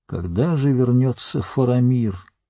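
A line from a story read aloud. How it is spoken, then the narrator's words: Wistful sigh. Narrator (Russian): Гэндальф, тоскливо вздохнув, сказал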